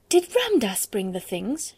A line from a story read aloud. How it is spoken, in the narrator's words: she cried out